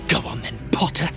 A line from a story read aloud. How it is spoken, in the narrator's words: Malfoy said quietly